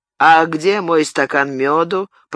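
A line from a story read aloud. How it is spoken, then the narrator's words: Grumbling mumble. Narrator (Russian): пробурчал Арно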